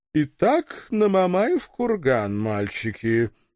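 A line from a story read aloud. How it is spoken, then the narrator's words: Businesslike purr. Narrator (Russian): деловито мурлыкнула Диана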